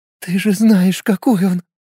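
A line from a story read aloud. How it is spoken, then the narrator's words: Sobbing woman. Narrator (Russian): рыдая, заканчивала рассказ женщина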